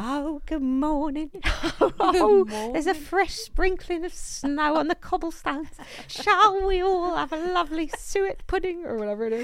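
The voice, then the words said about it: Put-on English accent. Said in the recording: “Tell us about it with your accent.”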